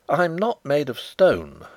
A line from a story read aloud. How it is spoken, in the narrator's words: I exclaimed